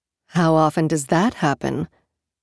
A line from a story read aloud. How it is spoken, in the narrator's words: Mahit said dryly